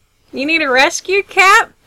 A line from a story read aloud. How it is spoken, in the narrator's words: one of them drawls